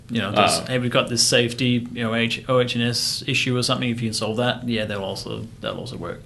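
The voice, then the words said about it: Australian accent. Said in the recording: “most people are going to enjoy your accent on this probably, especially versus mine ... enjoyed Lars' accent ... I didn't even put on my real Ocker Australian accent either”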